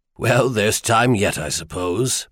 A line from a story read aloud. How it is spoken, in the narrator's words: Manthir chuckled